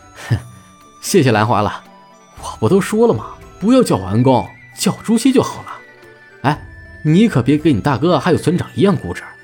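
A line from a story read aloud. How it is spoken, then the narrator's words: Smiling. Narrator (Chinese): 朱熹笑着 说道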